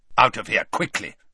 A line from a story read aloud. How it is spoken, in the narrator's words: said Snape